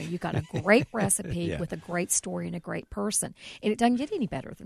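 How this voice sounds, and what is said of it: Southern American accent. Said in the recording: “you still get grief about your accent. ... I know I have an accent ... Wow, I never knew you were Southern.”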